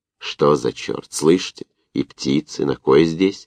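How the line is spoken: Whispered curse. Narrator (Russian): шепотом выругался Новиков

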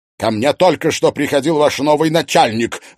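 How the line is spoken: Angry bark. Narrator (Russian): рявкнул Белобров

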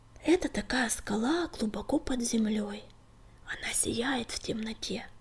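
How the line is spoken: Whispered reply. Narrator (Russian): шепотом ответил Клубок

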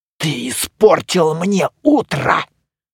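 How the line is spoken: Hiss. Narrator (Russian): прошипело новое лицо

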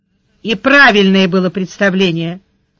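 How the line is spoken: Angry confirmation. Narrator (Russian): подтвердила она сердито

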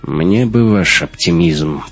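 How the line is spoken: Grumbling. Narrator (Russian): проворчал Раттенхубер

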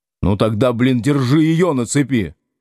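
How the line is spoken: Bark. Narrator (Russian): рявкнул Будкин

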